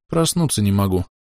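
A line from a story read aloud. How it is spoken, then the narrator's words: Quiet sleepy mumble. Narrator (Russian): тихо пробурчала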